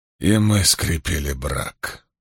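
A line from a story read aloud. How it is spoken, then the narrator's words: Hoarse rasp. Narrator (Russian): прохрипел Спартак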